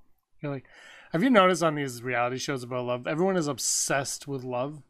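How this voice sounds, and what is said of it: Usual voice. Nothing is said of it.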